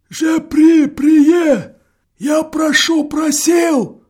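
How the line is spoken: Muffled breathless mutter. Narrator (Russian): глухо бормочет Лохов, задыхаясь

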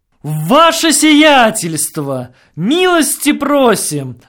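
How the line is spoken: Shouting. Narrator (Russian): закричал Ситников

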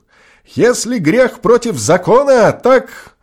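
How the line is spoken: Shouting. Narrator (Russian): Губин крикнул

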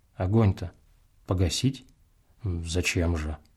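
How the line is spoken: Quiet businesslike question. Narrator (Russian): он спросил тихо и деловито

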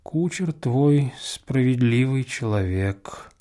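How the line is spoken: Thoughtful reply. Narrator (Russian): задумчиво отвечал мне Касьян

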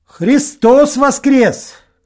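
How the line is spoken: Shout. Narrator (Russian): крикнул ему Максим

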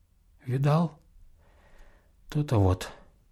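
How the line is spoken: Quiet. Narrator (Russian): так же тихо молвил

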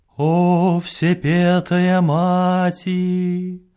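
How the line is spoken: Muffled, distant from field. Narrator (Russian): Глухо несется с поля

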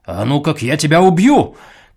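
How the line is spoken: Sudden shout. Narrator (Russian): крикнул он вдруг

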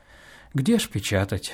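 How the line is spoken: Sighing. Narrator (Russian): вздохнул он

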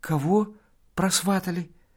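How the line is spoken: Frightened question. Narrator (Russian): Макар Кузьмич спрашивает испуганно

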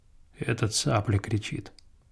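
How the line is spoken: Calm objection. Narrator (Russian): спокойно возразил Павел

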